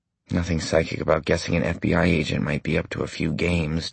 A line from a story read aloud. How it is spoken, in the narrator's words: Johnny said